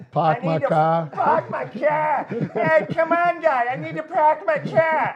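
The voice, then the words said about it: Put-on Boston accent. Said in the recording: “if he had a Boston accent”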